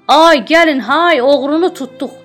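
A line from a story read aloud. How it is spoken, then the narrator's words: Several voices shouting. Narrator (Azerbaijani): deyə bağırırdılar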